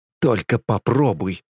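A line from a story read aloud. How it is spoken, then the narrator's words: Hissing through teeth. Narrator (Russian): шипит сквозь зубы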